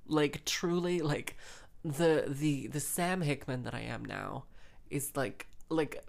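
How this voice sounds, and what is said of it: Usual voice. Nothing is said of it.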